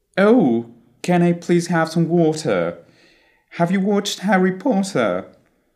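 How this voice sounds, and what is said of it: Mocking British accent, dropped R. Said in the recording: “the omission of the letter R at the end of the syllables, which has made the British victim of mockery”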